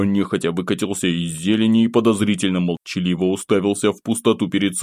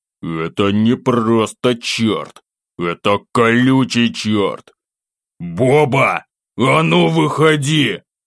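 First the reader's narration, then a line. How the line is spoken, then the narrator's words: Growled. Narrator (Russian): рыкнул я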